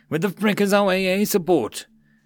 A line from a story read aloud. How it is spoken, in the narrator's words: He cursed, yelling